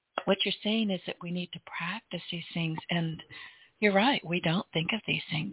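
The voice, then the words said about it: Hoarse, strained voice. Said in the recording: “I'm losing my voice today.”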